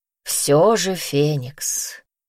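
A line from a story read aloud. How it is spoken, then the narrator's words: Breathed out. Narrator (Russian): выдохнул Куршан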